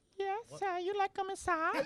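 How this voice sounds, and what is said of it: Put-on fake voice. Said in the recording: “if you could put a fake voice on ... Can I get a fake voice?”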